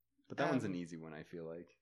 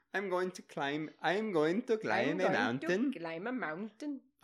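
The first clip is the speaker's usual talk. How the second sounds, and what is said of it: Put-on Norwegian accent. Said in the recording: “now you're sounding a little Norwegian... I thought you were doing Indian... I'm totally doing Norwegian.”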